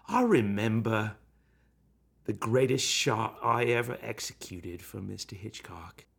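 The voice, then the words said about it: Put-on middle class British accent. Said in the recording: “You're kind of doing a Hitchcock accent right now, right? ... Jack Whitehead was more middle class British, where Hitchcock had sort of a variant of like Cockney”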